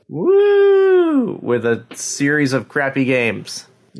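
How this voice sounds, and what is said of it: Sarcastic, mock enthusiasm. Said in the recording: “Hear the enthusiasm in my voice.”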